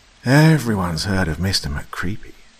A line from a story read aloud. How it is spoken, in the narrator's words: Michael sighed at two people he evidently considered imbeciles